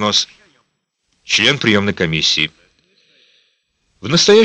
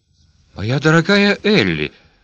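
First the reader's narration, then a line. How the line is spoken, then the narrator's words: Babbling. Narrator (Russian): пролепетала Примула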